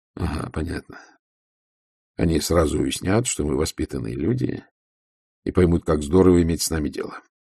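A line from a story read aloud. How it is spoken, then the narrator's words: Gloomy. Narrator (Russian): мрачно сказал Ваймс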